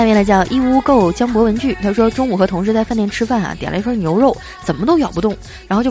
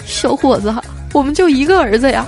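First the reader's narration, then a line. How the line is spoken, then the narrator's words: Old man pleading. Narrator (Chinese): 这大爷哀求道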